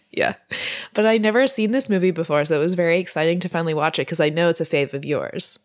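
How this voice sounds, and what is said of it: Voice sounds sick. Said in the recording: “I'm still a little bit sick, so that's why my voice sounds like this... it's because I'm sick”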